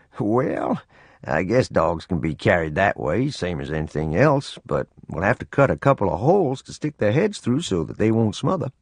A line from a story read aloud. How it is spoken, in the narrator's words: Chuckling, he said